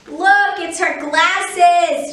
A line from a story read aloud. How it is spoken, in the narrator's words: she yelled